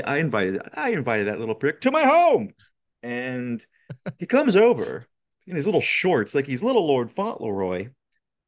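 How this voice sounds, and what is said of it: Friedkin impression, Walken-like Chicago accent. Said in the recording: “attempt a Friedkin impression, you basically have to do Christopher Walken, but with ... Chicago accent.”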